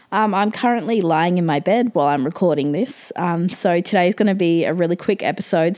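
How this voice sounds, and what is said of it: Sick-sounding voice. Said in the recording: “You may be able to tell from my voice, but I am sick ... my sickness voice”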